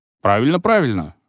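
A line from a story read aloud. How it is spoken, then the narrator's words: Father, odd chuckle. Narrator (Russian): сказал папа и как-то странно хохотнул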